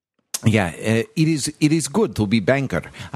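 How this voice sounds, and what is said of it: Terrible put-on Bulgarian accent. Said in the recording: “That's a terrible Bulgarian accent.”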